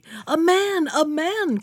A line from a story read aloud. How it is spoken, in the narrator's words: cried she